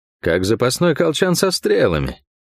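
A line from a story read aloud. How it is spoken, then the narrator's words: Wry snort. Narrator (Russian): хмыкнул я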